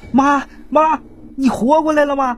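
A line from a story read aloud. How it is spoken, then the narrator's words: Frightened repeated calling. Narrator (Chinese): 老太太家人给吓坏了，就连连喊呢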